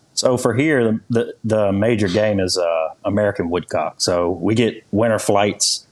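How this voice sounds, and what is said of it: Heavy Louisiana accent. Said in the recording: “translate the heavy accents we have down here. I have a hard time hiding mine.”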